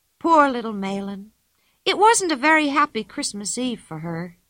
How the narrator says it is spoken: said Pippi sadly

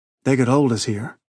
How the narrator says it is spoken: he said anxiously

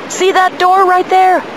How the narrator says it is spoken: Arlen shouted

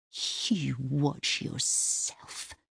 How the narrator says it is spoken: she hisses

